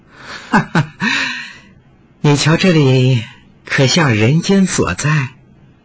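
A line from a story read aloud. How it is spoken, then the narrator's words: Woman laughing. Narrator (Chinese): 美妇人又笑道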